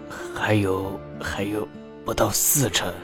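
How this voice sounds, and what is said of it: Quiet, hesitant speech. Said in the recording (Chinese): “支吾了一下……才小声说道”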